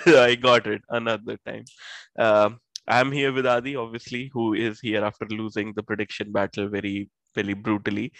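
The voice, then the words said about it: Sick, strained voice. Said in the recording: “Sorry for my voice, I probably have COVID again.”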